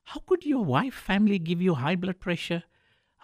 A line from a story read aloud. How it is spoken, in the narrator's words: sighed